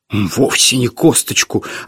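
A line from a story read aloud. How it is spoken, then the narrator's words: Offended declaration. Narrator (Russian): обиженно заявил Лонгфелло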